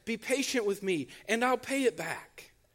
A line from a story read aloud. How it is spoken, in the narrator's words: His fellow servant fell to his knees and begged